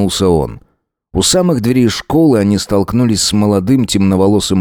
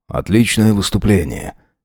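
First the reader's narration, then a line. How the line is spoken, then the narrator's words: Quiet. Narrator (Russian): негромко сказал он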